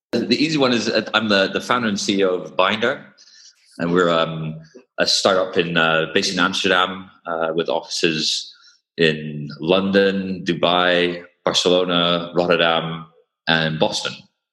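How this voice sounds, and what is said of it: Mixed, mainly British accent. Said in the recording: “you've got a bit of a mixed accent there, but I detect mainly a British accent”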